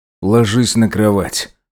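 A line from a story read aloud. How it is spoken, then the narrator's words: Forced out bit by bit. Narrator (Russian): выдавил тот по крупицам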